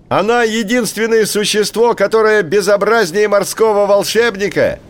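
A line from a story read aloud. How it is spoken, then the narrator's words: Shouting bird. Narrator (Russian): крикнул большой поморник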